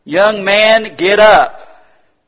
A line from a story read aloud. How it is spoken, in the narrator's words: says in a loud voice